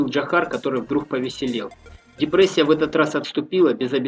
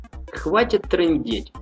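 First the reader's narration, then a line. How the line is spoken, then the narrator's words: Laughing. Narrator (Russian): засмеялся Влад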